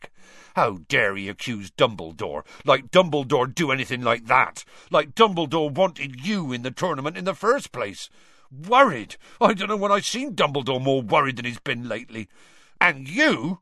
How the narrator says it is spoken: Hagrid suddenly said angrily to Harry

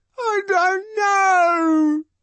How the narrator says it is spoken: he howls

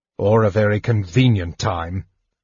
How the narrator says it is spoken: snarled Sturm

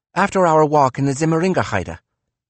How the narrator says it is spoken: Nietzsche said quickly

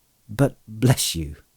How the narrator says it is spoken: he laughed

